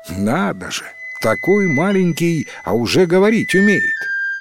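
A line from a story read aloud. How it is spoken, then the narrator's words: Surprised exclamation. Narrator (Russian): Удивилась Мария и воскликнула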